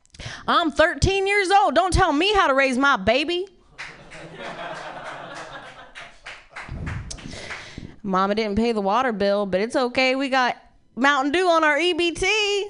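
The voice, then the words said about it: Put-on country accent. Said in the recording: “can you say something to me, but like in a country accent?”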